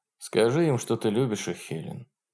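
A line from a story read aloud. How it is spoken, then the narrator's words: Quiet. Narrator (Russian): тихо сказал он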